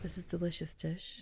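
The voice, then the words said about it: Mock NPR radio announcer voice. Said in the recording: “NPR impersonation ... you had a radio voice just then”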